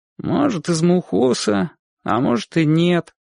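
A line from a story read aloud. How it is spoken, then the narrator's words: Glum boy's answer. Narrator (Russian): уныло ответил мальчик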